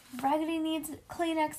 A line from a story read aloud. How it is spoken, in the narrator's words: I yelled